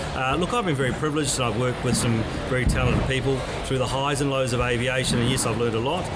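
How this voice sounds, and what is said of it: New Zealand accent. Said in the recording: “as some of you may gather from my accent, I originally came from the Isles across the Tasman”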